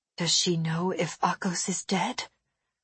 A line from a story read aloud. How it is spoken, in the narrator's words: I asked quietly